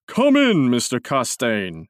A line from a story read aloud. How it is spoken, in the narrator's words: cried in his deep, hearty voice